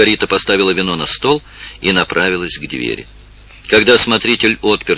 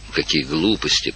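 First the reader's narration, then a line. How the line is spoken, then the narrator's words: Whisper. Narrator (Russian): прошептал Олимпио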